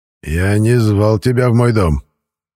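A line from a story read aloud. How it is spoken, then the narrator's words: Growling. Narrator (Russian): рыкнул Михаил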